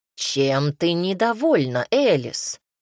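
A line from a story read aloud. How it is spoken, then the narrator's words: Monstrous growl. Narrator (Russian): прорычало это чудовище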